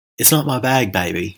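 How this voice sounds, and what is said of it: Bad Austin Powers impression. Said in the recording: “That's my really bad Austin Powers impression.”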